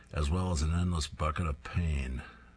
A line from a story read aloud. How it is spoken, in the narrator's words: grumbling